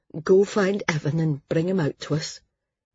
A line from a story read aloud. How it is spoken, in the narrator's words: Cole said in a shaky voice